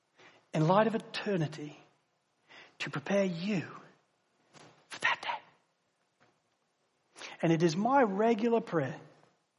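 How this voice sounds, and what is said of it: Mixed English, Australian, American accent. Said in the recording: “this guy with a strange English, Aussie, American accent”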